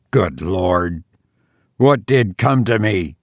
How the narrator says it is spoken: he muttered

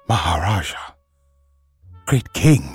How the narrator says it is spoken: he said at last in a husky whisper

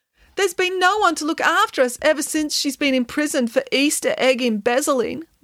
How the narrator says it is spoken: moaned Samantha

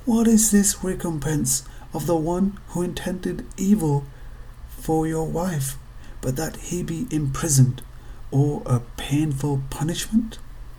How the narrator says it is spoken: Ashamed, she cried

